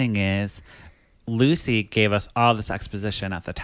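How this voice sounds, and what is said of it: Usual voice. Nothing is said of it.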